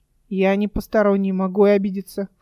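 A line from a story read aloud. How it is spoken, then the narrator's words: Offended snort. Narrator (Russian): фыркнул Верден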